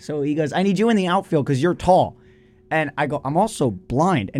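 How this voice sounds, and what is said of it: Strained, worn-out voice. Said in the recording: “I've been yelling with people like that this whole weekend. So my voice is messed up.”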